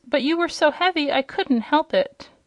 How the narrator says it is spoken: cried Inga in real distress

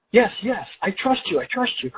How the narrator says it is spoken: cried the man

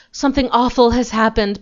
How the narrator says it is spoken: panted Emma Jane

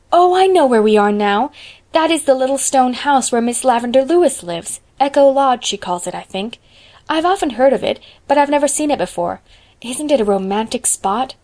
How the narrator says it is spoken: Diana exclaimed

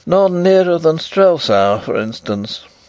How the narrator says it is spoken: said poor Fritz with a lovelorn sigh

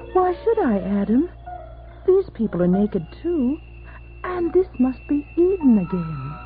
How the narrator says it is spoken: Eve said coolly

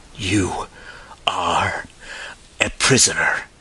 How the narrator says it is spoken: panted Ostrog, exulting

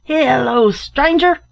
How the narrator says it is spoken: shouted a voice from within

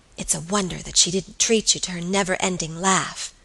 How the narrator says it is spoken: whispered Alicia

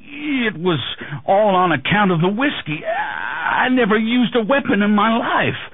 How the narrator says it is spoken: Potter sputtered

